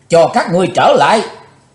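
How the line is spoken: Furious loud yell. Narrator (Vietnamese): Chí Tôn thịnh nộ thét lớn

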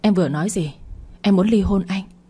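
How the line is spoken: Frightened trembling question. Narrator (Vietnamese): vẻ sợ hãi, giọng run run hỏi lại

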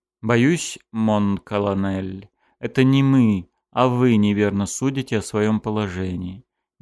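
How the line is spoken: Softly. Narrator (Russian): мягко сказал сын Николая I

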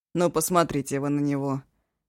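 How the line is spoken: Grumbling. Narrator (Russian): проворчал Ишу

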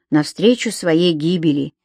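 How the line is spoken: Quiet addition. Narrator (Russian): тихо добавил Том

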